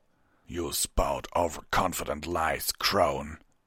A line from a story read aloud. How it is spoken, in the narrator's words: Vanguard growled